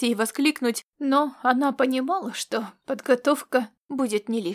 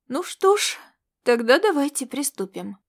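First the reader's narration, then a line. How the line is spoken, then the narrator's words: Peaceable tone. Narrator (Russian): сказала она миролюбивым тоном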